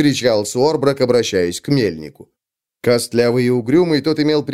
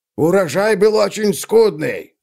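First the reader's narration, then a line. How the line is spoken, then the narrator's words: Barked. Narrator (Russian): рявкнул он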